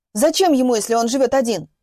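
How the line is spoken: Desperate choking yell. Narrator (Russian): орал и захлебывался от отчаяния Антон

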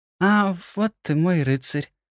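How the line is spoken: Slightly husky. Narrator (Russian): произнесла с легкой хрипотцой в голосе

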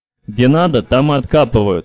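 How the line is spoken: Angry grumble. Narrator (Russian): сердито проворчал Гансыч

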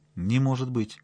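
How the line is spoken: Calm objection. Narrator (Russian): спокойно возразил он

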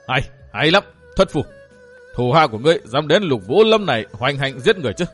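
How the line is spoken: Loud eerie laughter. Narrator (Vietnamese): Lục Vũ lệnh chủ, bà bật cười to với giọng rùng rợn vô tưởng

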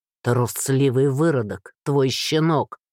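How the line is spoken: Guide spitting through teeth. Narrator (Russian): Выплюнул проводник сквозь зубы

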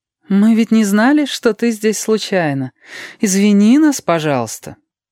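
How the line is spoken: Slightly sing-song. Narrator (Russian): Она сказала, чуть нараспев

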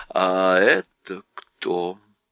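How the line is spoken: Plain. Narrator (Russian): спросил Мирас

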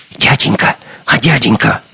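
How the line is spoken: Whisper. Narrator (Russian): услышал он чей-то шепот

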